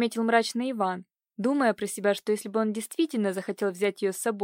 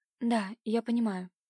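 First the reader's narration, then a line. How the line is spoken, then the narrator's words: Sighing whisper. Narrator (Russian): прошептала, вздохнув, Катюша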